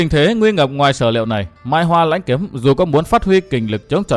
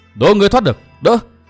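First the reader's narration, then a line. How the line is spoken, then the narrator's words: Thunderous shout. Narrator (Vietnamese): một tiếng quát tựa như sấm động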